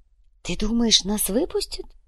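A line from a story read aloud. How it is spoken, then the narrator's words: Whispered question. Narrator (Russian): шепотом спросил Юсур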